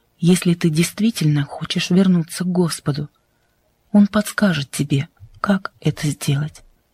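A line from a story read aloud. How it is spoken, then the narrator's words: Soft reply. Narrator (Russian): мягко ответила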